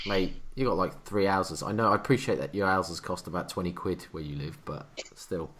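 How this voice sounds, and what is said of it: Norfolk English accent. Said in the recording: “tell from my southern accent? ... the Norwich accent or the Norfolk accent”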